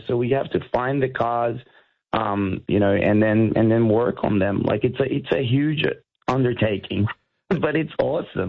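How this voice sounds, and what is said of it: Slight American West Coast accent. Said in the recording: “I detect an American, a West Coast, bit of a West Coast accent there”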